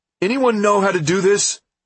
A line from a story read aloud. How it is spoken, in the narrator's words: Nick called out